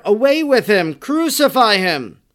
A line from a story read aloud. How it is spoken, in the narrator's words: Many voices cried out together